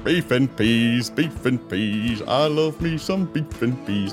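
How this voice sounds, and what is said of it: Imitates another person's voice. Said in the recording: “my Pat Rankin impression... That's a song he sings.”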